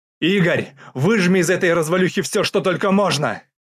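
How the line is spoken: Shouted. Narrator (Russian): крикнул Глеб

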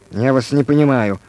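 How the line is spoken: Rapid muttering. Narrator (Russian): скороговоркой пробормотал Иван Иванович

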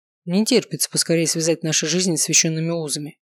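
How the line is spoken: Smirking snort. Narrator (Russian): хмыкнул Варгас

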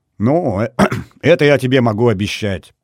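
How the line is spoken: Laughing. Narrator (Russian): засмеялся генеральный

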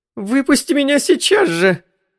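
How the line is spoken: Shriek. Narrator (Russian): взвизгнула Джоан

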